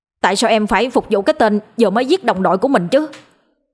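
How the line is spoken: Angry. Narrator (Vietnamese): Anh Sướng nói, giọng vẫn còn nguyên vẻ giận dữ

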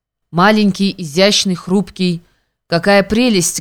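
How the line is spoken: Plain. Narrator (Russian): говорит Маня

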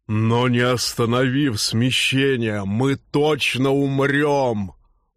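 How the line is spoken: Stubborn and grim. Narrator (Russian): упрямо и мрачно изрек Норл

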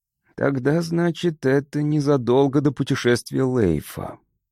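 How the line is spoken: Muttered. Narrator (Russian): пробормотал

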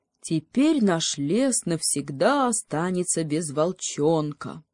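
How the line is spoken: Funereal, mournful voice. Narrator (Russian): похоронным голосом заключил лось

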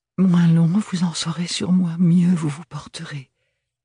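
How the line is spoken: Pleading. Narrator (French): le supplia Ophélie

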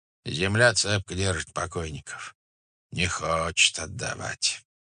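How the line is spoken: Mutter. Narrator (Russian): бормотал он

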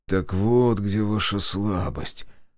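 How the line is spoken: Muttered. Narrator (Russian): пробормотал я

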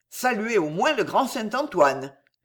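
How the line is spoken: Shouting. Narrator (French): cria-t-on

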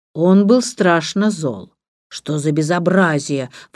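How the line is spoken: Grumbling. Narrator (Russian): ворчал

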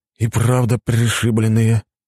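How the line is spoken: Puzzled sigh. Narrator (Russian): недоуменно вздохнул я

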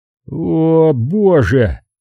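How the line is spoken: Man moaning. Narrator (Russian): простонал мужчина

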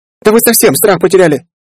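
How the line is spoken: Indignant yell. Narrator (Russian): завопила подскочившая на ноги Софа

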